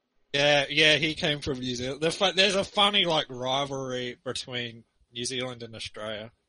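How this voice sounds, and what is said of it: Australian accent. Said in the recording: “I'm from Australia, mate... I've never left Australia, so that's where my accent comes from.”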